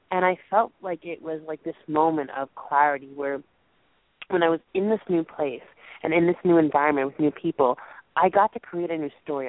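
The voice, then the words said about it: Strained, failing voice. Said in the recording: “I apologize, guys, for losing my voice tonight.”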